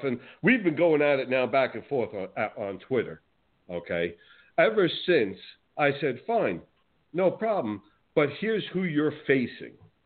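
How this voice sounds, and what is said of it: New Jersey accent. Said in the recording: “certainly can't tell by my accent, I'm not from Florida. I'm from New Jersey.”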